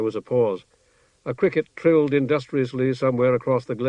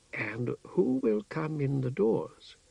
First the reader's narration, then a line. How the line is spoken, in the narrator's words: asked the doorkeeper in his mild voice